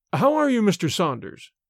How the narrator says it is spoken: cried the banker, cordially

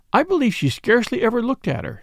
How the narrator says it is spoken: sighed Mrs

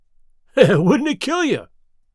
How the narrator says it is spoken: He cried

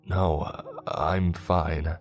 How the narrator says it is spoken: said Andrew in a hollow, weary voice

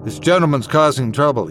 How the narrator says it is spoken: he said

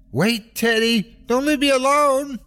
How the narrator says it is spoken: I yelled

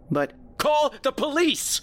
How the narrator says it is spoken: I yelled

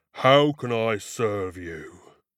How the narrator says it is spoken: it boomed

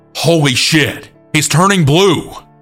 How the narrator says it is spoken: my coworker yelled

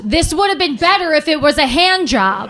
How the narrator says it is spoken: he screamed

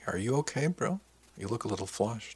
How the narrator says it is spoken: asked softly

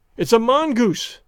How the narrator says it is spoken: I cried

